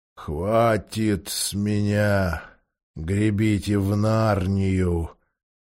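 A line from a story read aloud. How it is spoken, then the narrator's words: Muttered after deep sigh. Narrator (Russian): Он глубоко вздохнул, пробормотал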